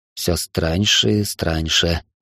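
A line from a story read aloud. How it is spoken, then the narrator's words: Muttered. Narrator (Russian): пробормотал я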